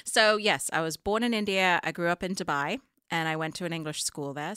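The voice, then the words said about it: Classy-sounding English accent. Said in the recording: “you have an accent that makes you sound incredibly classy and smart”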